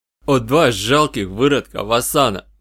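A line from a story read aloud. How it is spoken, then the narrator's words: Fairly loud. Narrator (Russian): довольно громко выдал Карст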